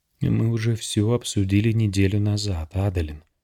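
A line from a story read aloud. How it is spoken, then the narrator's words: Gentle reminder. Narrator (Russian): мягко напомнил Далинар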